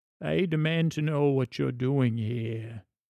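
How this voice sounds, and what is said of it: Performs a character's voice. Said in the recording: “Let me see if I can do the voice”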